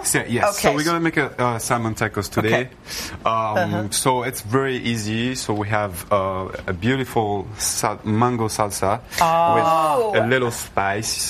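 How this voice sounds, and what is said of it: Speaks with a noticeable accent. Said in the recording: “We love your accent.”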